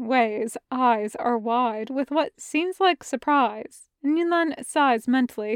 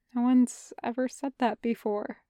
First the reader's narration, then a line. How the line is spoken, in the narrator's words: Shen Wei tells him quietly